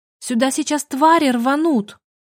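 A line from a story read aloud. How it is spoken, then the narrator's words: Shout. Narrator (Russian): Я крикнула стражам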